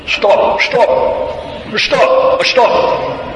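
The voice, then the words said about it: Imitated Hindi-accented English shout. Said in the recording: “In kind of a Hindi accent of stop ... Hindi style. Hindi English.”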